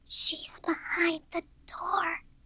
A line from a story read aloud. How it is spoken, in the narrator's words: she whispered suddenly